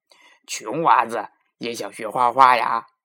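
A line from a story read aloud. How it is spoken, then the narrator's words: Mocking laughter. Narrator (Chinese): 大官和画师哈哈大笑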